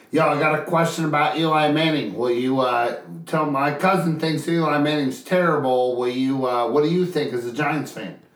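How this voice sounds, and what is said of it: Nasal imitation of another person's voice. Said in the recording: “I'm sorry I sounded nasally, but that's what Joe sounded like ... good impression”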